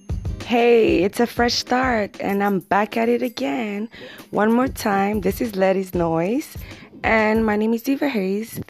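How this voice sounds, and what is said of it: Rough, rocky voice. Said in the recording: “excuse my voice for being kind of rocky, you know. It's kind of, it's been a long night.”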